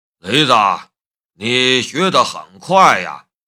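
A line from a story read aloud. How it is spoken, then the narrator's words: Admiring. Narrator (Chinese): 梁正春赞叹的道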